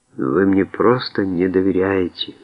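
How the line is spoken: Sad. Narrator (Russian): грустно сказала Симона

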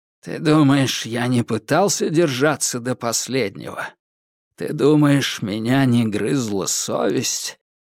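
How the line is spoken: Quiet. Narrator (Russian): тихо произнес Гао Далунь

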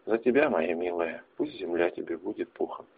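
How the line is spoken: Quiet speech. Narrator (Russian): тихо проговорил я

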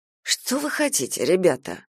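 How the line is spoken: Sighing, mocking or sad. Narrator (Russian): вздохнул Харя, то ли ерничая, то ли с глубоко запрятанными сожалением и грустью

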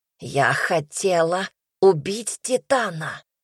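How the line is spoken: Hissed. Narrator (Russian): прошипела королева

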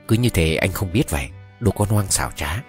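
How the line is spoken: Cold, smiling. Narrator (Vietnamese): cô ấy mỉm cười với tôi một cách thật lạnh lùng rồi nói

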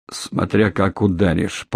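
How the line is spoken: Muttered with hatred. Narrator (Russian): пробормотал Лямин, с ненавистью

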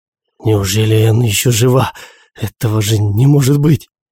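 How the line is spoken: Frightened mutter. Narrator (Russian): Испуганно пробормотал Мартин

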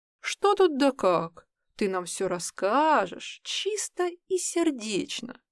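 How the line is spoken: Gentle, man's voice. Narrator (Russian): Ласково произнес усатый стражник

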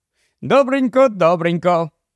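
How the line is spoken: Cheerful. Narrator (Ukrainian): весело сказав

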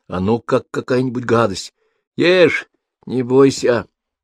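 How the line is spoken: Laughing. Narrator (Russian): засмеялась тетя Сима

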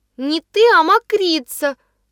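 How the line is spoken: Shouted out. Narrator (Russian): выкрикнула Ниночка

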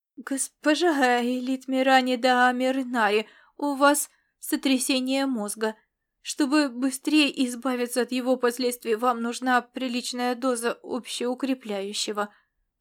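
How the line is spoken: Timid babbling. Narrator (Russian): пролепетал он

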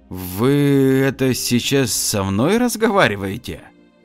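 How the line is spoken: Mumbled. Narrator (Russian): Промямлил Денис

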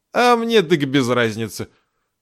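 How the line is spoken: Enchanted sigh. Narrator (Russian): зачарованно вздохнул Мигалыч

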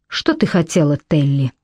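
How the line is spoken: Calm question. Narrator (Russian): спокойно спросил Крой

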